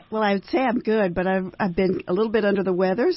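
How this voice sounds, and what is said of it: Hoarse, froggy, deeper voice. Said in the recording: “I'm a little bit froggy today. My voice got deeper... You've just moved from, you know, an alto to a tenor”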